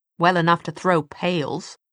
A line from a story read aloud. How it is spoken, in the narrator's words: Sophie said crossly